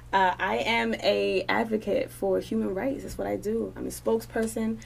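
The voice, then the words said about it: New York accent. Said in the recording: “What's that accent from? ... I'm from New York. What's up, Queens?”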